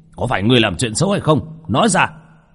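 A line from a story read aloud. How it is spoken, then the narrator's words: Old priests roaring. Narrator (Vietnamese): Hai lão đạo kia gầm lên một tiếng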